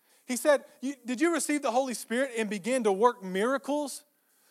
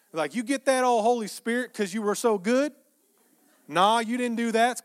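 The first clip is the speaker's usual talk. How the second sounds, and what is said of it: Put-on Texas accent. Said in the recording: “I just heard a Texas accent. ... I felt like it landed better as I said it in that accent.”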